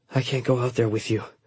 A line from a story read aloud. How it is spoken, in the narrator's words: I mumbled